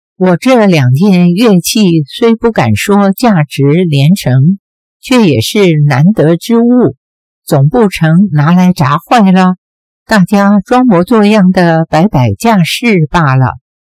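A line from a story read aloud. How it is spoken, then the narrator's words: With a slight smile. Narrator (Chinese): 微微一笑说道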